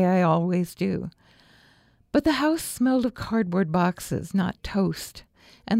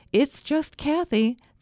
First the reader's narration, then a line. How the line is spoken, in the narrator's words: called out